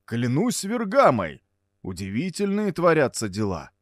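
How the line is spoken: Stunned exclamation, astrologer. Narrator (Russian): воскликнул ошеломленный астролог

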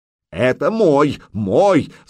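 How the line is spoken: Yelling from behind. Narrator (Russian): завопил за спиной Рулов

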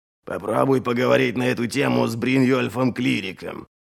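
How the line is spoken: Grumble. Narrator (Russian): проворчал Ральф

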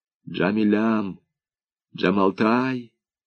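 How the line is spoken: Tender whisper. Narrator (Russian): шептал Данияр, называя ее самыми нежными казахскими и киргизскими именами

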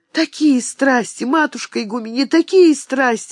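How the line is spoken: Trembling exclamation. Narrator (Russian): воскликнула дрожащим голосом Серафима

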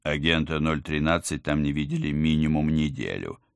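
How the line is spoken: Plain. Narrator (Russian): сказал он

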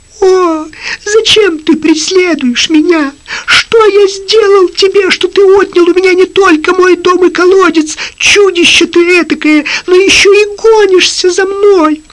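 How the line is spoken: Trembling, thin pleading. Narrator (Russian): дрожащим, тонким голосом взмолился

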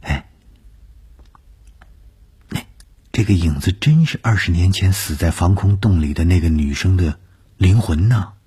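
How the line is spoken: Plain. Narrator (Chinese): 说完了这句话

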